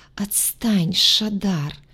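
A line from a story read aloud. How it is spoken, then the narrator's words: Sleepy whisper. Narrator (Russian): сонно прошептала она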